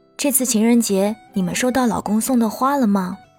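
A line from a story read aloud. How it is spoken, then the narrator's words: Plain. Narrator (Chinese): 我摇摇头说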